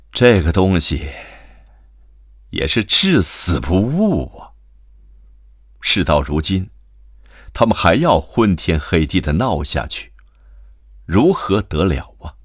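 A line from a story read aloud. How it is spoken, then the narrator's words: Sighing, weary. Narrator (Chinese): 金太太便叹了一口气道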